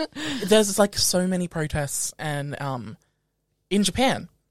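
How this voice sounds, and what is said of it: Usual voice. Nothing is said of it.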